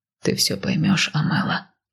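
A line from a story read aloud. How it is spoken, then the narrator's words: Whisper. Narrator (Russian): шепнул он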